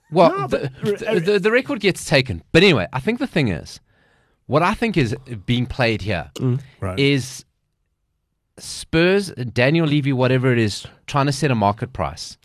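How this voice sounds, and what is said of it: English accent. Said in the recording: “With that accent, you have to stay in England.”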